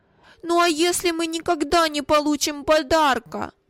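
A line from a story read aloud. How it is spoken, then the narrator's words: Timid tearful objection. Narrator (Russian): осмелился возразить плачущим тоном Вилли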